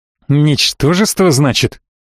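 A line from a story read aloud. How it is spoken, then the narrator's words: Cold hiss. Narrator (Russian): прошипел эльф, сразу перестав улыбаться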